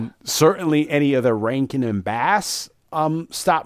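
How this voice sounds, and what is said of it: Usual voice. Nothing is said of it.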